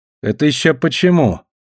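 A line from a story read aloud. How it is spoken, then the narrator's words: Gloomy question. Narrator (Russian): мрачно поинтересовался Талли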